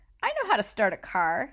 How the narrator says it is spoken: giggled

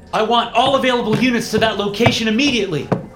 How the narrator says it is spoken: I shouted as I ran

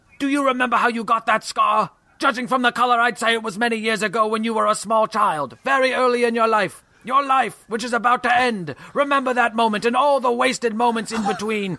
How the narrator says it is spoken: One garbage person screamed

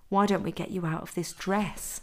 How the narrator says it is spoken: Anthony whispered into Danny's ear

